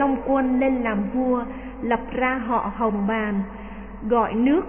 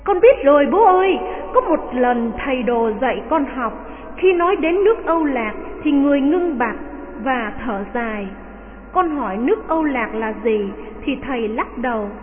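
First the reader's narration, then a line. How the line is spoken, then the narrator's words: Joyful exclamation. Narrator (Vietnamese): Đào Kỳ reo lên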